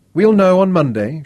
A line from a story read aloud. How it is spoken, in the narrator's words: Charza shrugged, trying not to let them see how bitterly disappointed he was